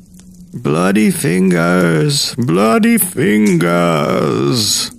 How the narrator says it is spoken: moaned

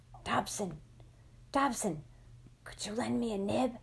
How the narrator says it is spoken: I put a hand in front of my mouth and whispered

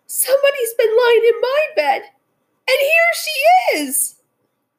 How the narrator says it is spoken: cried the little wee bear in his little wee voice

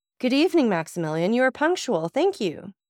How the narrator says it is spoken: a voice which made him shudder exclaimed

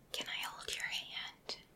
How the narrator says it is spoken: whispered

